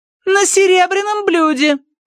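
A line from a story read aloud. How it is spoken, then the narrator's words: Shouting after someone. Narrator (Russian): крикнула Тосси ему вдогонку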